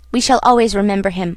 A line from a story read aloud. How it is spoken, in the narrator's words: I said hastily